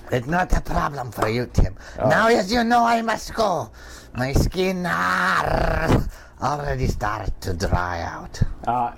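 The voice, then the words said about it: Funny put-on Scottish accent. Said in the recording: “his funny accent ... that was some sort of accent ... a great accent ... people from Scotland or the sea are their accents”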